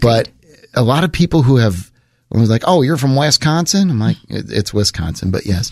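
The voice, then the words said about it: Texas accent. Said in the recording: “I apologize for my Texas accent ... It's not a Wisconsin accent”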